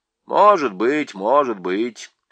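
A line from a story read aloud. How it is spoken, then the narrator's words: Dry, wary reply. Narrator (Russian): сухо и настороженно отозвался Хмур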